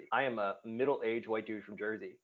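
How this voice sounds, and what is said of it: Nasal New Jersey accent. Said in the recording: “this nasally accent, I'm from Jersey”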